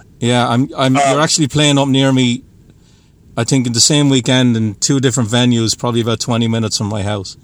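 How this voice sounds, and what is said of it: Irish accent. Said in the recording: “You have a bit of a. I'm trying to place the accent. ... I'm Irish. ... I was going to say Irish.”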